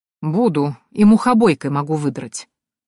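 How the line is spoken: Stern, hiding a smile. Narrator (Russian): пообещала суровым тоном, с трудом скрывая улыбку

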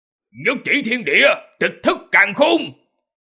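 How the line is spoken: Loud shout. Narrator (Vietnamese): Tư Đồ Nam không chút nghĩ ngợi, hét lớn

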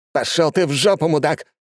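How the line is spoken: Shouting in face. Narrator (Russian): крикнул ему в лицо Влад

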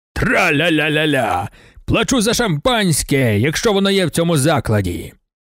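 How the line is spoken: Shouted. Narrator (Ukrainian): Луазо закричав

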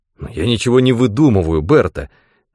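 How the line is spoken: Angry objection. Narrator (Russian): сердито возразил он

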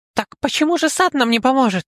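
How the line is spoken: Squeak. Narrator (Russian): Пискнул кто-то из-за стола

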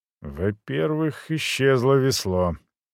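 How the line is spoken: Quiet reply. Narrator (Russian): тихо ответил швед

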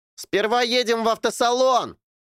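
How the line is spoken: Shouted. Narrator (Russian): крикнул Эрни

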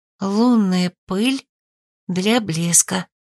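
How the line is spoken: Whisper. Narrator (Russian): прошептала

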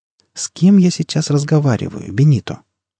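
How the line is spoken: Insinuating soft question. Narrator (Russian): вкрадчиво поинтересовался доктор

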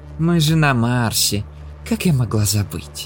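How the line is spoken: Sigh. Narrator (Russian): вздохнула она

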